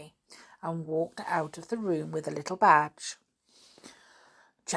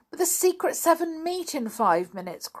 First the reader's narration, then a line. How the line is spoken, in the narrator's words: cried Janet